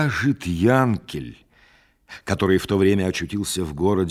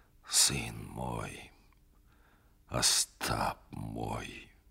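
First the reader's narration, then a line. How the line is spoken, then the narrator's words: Spoke quietly, head bowed. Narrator (Russian): И он тихо, понурив голову, говорил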